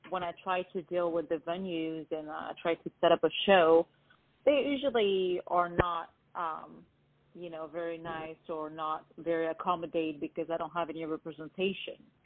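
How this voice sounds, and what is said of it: Non-native foreign accent. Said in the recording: “I'm not from here and I have an accent, so I can't hide it”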